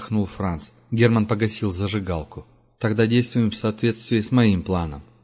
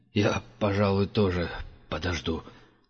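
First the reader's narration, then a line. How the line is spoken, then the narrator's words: Trembling voice. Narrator (Russian): дрожащим голосом проговорил Франц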